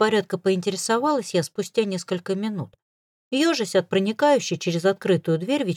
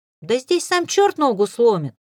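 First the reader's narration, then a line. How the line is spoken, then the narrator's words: Offended shout. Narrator (Russian): обиженно прокричал Антон в ответ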